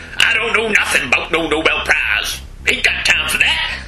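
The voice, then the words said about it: Passable put-on Cockney accent. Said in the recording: “Where did that accent come from? ... a burly adequate Cockney accent?”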